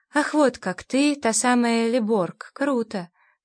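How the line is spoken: Affected drawl. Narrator (Russian): протянул он все тем же деланным тоном

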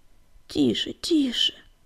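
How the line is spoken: Whispering. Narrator (Russian): зашептал Огнегриф

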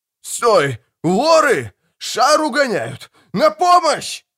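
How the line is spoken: Yelling. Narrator (Russian): орал

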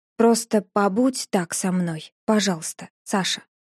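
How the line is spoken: Quiet, tender. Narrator (Russian): тихо сказал он

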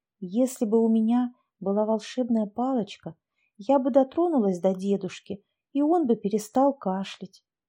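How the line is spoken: Dreamy whisper. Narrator (Russian): шепотом делилась мечтами Поленька с соседкой по парте Тамарой Козюлиной

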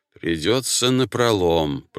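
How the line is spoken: Moose muttering through teeth. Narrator (Russian): процедил лось

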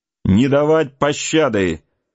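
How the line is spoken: Shouting in French. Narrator (Russian): по-французски крикнул один из преследователей

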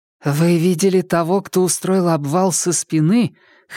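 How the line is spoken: Slightly hoarse question. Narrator (Russian): хрипловато спросила

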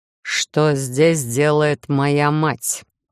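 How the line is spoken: Furious growl. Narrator (Russian): вновь прорычал Хайт, даже не думая снижать обороты своей ярости

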